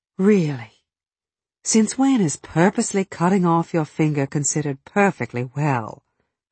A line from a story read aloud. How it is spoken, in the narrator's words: I sighed